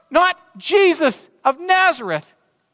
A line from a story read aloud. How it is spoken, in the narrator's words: he began to shout